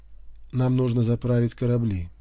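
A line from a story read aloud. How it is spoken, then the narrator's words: Plain. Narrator (Russian): сказал Гарнер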